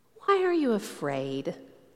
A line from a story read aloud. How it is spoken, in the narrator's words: Jesus gently asked